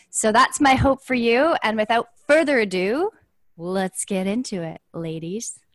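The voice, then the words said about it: Sultry, resonant phone-sex-operator voice. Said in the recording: “That was my sex phone sex operator voice ... It was very resonant.”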